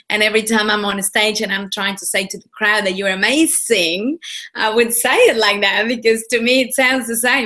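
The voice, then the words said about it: Non-native English accent. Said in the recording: “making fun of my accent ... I can't pronounce them ... people are trying to copy my accent”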